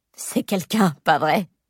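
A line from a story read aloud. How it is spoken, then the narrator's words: Sneering laugh. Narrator (French): ricane-t-elle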